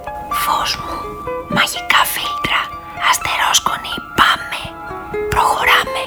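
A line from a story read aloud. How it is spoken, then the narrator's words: Whispered. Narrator (Greek): Τότε ο Νίκ έβαζε το χέρι του στην καρδιά και ψιθύριζε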